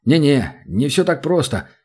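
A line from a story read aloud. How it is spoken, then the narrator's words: Terrified muttering. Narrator (Russian): забормотал Римон, в ужасе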